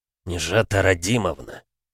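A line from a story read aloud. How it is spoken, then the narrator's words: Through teeth. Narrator (Russian): процедил он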